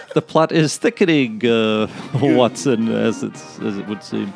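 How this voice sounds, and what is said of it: Christopher Guest's Sherlock Holmes impression. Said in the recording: “Christopher Guest at the end of Guffman doing his Sherlock Holmes impersonation.”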